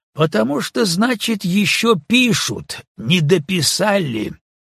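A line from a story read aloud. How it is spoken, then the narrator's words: Rude, mocking, offended. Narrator (Russian): ответил староста грубо и насмешливо, обиженный тем, что Митя не поддержал его разговора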